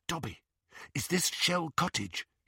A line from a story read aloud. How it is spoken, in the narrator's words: he whispered